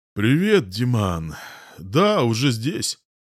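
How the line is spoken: Sleepy voice. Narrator (Russian): сонным голосом отвечает Смирнов

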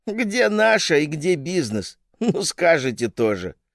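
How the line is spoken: Laughing. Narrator (Russian): рассмеялась Ирина Васильевна

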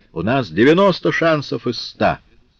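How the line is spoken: Cheerful shout. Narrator (Russian): Наполеону весело крикнуть Нею

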